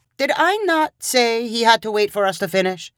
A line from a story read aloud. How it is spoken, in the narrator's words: Joseph said to his wife in an annoyed voice